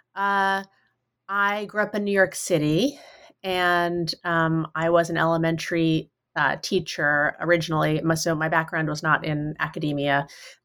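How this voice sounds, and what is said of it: Slightly nasal, congested voice. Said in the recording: “I have a little bit of a cold I'm getting over, so I hope I'm not too nasally”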